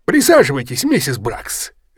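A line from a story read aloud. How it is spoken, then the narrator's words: Cheerful invitation. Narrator (Russian): весело предложил он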